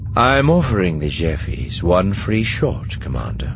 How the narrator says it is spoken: Thrawn replied calmly

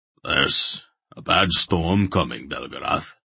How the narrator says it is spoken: Barak rumbled

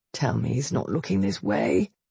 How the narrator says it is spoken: Chase mumbled

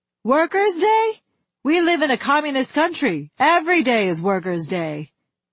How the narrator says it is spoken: Big Mother came onto the line and shouted

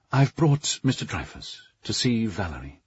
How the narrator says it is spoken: Sebastian said in a low, respectful tone

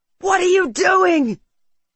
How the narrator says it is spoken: Marcus screamed

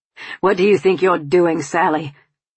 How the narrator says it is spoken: Tom snapped

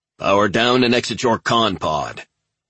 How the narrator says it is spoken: November Ajax's pilot boomed

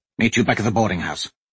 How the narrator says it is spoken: Royce said quickly

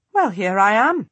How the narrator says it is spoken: she says dryly

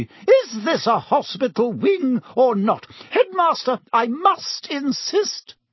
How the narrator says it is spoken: said Madame Pomfrey hysterically

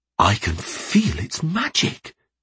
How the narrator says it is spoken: whispered

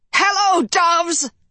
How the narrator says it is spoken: man's awful voice shrieked from the top of the stairs

